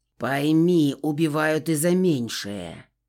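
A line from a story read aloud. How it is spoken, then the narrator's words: Growl. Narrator (Russian): прорычал он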